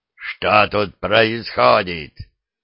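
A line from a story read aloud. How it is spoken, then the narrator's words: Governor growling. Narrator (Russian): прорычал наместник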